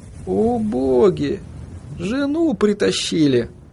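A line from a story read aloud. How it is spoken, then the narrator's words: Sighing. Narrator (Russian): Вздохнул он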